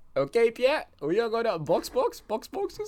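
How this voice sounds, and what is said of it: Imitates an engineer's accent. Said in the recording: “I love his accent, man. It's awesome. ... you hear that rote voice? Awesome.”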